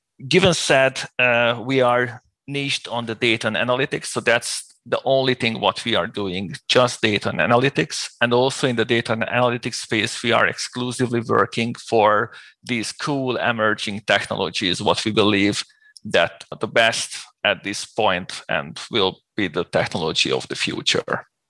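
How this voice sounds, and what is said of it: Hungarian accent in English. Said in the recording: “people can probably guess from your accent that you're not from the United States or the UK. Now, you're from Hungary”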